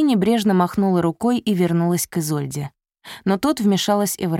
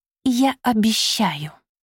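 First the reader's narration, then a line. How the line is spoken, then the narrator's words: Grudging hiss. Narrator (Russian): прошипела Софи, понимая, что пора уступить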